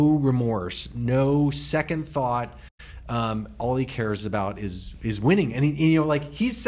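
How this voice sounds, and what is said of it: Usual voice. Nothing is said of it.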